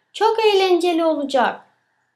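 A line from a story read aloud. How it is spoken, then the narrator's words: Shouting. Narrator (Turkish): Betül bağırıyor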